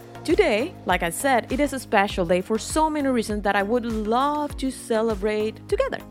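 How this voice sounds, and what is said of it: Non-native English accent. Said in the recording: “doing this in another language, which is not my native language ... my accent”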